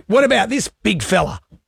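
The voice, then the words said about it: Imitates another person's voice. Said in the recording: “and his Robert Irwin impression ... It's extraordinary ... It's pretty good ... That's not bad”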